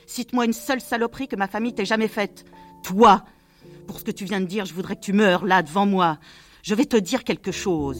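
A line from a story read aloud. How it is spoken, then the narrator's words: Howling. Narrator (French): hurla Mr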